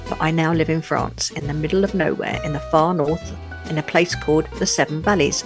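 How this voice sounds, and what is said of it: British London accent. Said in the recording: “I'm a Brit, a Londoner, as you can probably tell from my accent”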